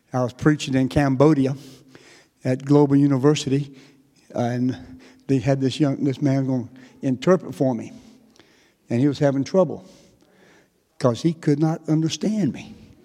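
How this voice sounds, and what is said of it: Southern North Carolina accent. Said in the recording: “this is not a Texas accent ... I am a Tar Heel. I am from North Carolina ... I love your Texas accent. It's not Texas.”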